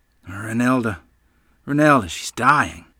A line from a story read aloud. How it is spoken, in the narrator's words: Mother muttered miserably as she ran in our house